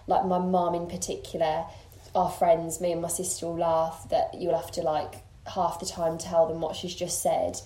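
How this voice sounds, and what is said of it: Birmingham English accent. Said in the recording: “accent is not Irish. ... I've got the Birmingham accent”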